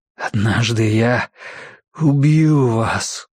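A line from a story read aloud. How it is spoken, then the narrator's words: Tearful whisper. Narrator (Russian): прошептал он, и слезы побежали по его щекам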